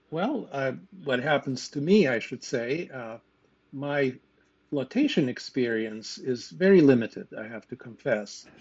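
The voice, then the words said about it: Lithuanian accent. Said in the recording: “You may have caught from my accent that I was born somewhere else. And indeed, I grew up in Lithuania.”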